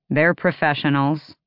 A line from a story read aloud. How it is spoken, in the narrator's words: Fenris said dryly